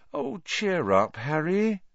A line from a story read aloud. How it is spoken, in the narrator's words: said Hermione sadly